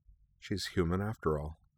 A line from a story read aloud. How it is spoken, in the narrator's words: she said softly